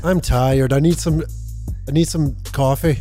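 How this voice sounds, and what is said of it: Rough attempt at Scottish accent. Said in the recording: “Do your best Scottish accent. ... It needs a wee bit of work, but you'll get it there.”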